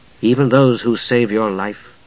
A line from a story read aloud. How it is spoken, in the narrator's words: Palin asked softly